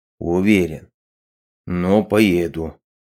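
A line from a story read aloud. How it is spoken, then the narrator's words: Grumbling mutter. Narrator (Russian): пробурчал он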